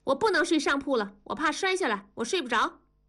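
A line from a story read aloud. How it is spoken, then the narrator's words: Loud. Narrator (Chinese): 大声地说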